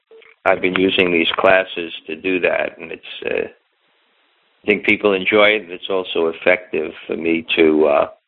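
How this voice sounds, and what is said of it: Strained, fading voice. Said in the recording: “Seem to be losing my voice a little bit here”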